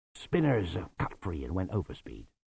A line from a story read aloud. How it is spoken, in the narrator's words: muttered Lutzer